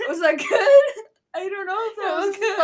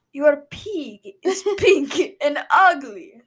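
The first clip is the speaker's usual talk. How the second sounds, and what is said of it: Put-on Russian accent. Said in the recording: “Say that sentence in your Russian accent.”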